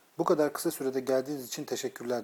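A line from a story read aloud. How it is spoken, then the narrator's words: Plain. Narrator (Turkish): dedi Christian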